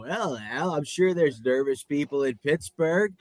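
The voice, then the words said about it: Imitates a sports commentator's voice. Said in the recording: “Collinsworth... that's not a good impression”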